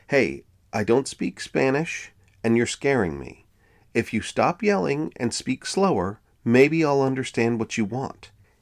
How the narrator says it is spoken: say in a calm voice

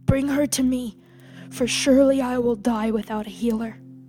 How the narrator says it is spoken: Moore rasped out in a panic

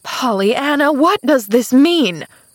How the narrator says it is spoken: cried Aunt Polly then

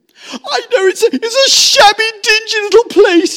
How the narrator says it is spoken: sobbed at last, brokenly

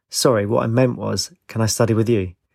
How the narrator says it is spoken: He chuckled

